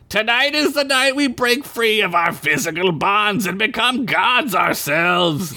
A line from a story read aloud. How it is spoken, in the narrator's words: Dant shouted